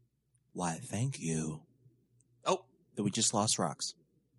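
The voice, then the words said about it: Deep, husky attempted sexy voice. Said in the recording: “Do you have a sore throat? Something's wrong with you... sexy voice... failing miserably... partway between movie trailer guy and Marge's sisters on The Simpsons”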